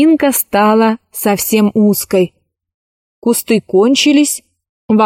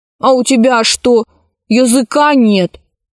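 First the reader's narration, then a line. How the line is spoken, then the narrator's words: Snapping back. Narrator (Russian): огрызнулся Пашка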